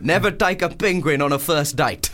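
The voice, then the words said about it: Put-on South African accent. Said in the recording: “That's a good South African accent.”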